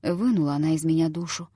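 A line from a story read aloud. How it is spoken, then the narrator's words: Whispered to himself. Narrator (Russian): шептал он самому себе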